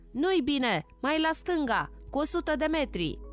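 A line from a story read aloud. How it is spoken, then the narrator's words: Soldier shouting. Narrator (Romanian): ostașul striga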